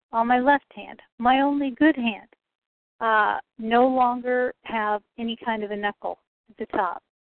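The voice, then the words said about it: Aggravated, agitated tone. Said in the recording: “I'm aggravated right now. You hear it in my tone of voice.”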